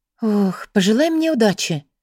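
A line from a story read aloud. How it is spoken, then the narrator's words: Girl sighing. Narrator (Russian): вздохнула девушка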